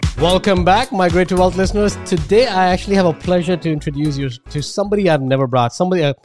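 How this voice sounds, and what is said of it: Indian English accent. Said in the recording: “my Indian accent”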